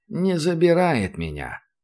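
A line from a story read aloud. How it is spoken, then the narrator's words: Old man sighing. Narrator (Russian): вздохнул дед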